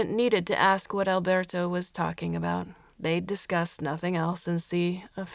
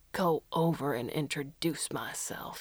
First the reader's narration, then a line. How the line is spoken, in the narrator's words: he muttered